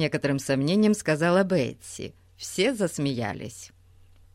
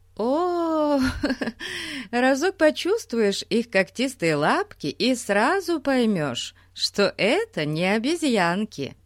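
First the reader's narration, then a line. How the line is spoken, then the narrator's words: Laughing woman. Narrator (Russian): сказала, смеясь, мисс Хармер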